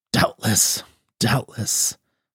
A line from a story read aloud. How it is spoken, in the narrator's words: murmured Don Benito